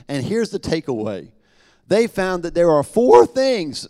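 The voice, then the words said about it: Voice cracks mid-sentence. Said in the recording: “My voice just cracked. I'm going through puberty.”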